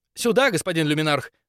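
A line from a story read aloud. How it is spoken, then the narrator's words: Rapid chatter. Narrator (Russian): затараторила она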